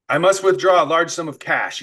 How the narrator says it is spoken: he said

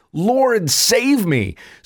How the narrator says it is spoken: he became frightened and began to sink, and he cried out, saying

